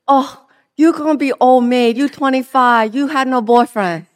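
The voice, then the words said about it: Imitated Asian-accented English. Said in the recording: “in her cute Asian accent”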